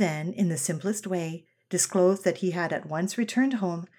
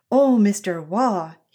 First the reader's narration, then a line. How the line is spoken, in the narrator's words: exclaimed, almost in tears